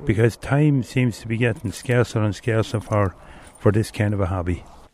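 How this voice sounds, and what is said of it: Speaks with a regional accent. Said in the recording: “Love the accent there.”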